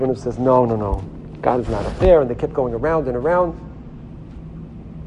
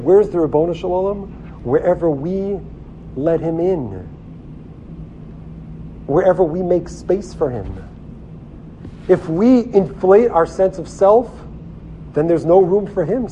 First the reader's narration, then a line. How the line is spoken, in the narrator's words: said Dr